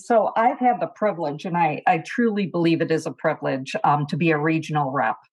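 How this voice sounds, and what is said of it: Wisconsin accent. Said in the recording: “accent you're hearing. Yeah, that's my accent. Wisconsin is originally my home.”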